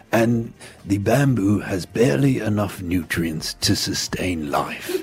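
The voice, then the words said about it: Imitates a documentary narrator's voice. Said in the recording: “that great impersonation”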